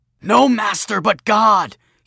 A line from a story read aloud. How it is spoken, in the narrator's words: he shouted